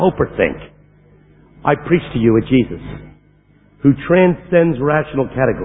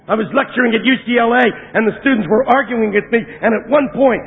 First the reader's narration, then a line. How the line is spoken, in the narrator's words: I yelled at them